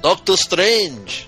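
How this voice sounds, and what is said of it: Grant Morrison accent impression. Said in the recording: “your Grant Morrison accent ... if you're doing Grant Morrison, it would be”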